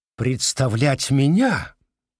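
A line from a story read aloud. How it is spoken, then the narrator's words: Exaggeratedly surprised exclamation. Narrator (Russian): воскликнул сэр Джулиус с преувеличенным удивлением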